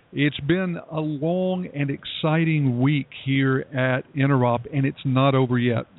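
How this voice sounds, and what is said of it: Slightly gravelly voice. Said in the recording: “you can probably hear that my voice is starting to get a little bit gravelly”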